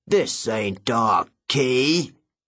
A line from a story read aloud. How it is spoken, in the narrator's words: he growled